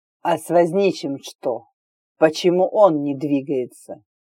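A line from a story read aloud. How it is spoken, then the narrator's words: Crisp, cold, accented. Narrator (Russian): спросил кто-то четко и холодно, с явным акцентом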